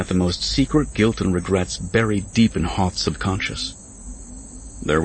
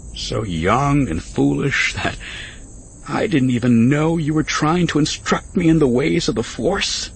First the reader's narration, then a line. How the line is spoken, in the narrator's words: Pernikar laughed lightly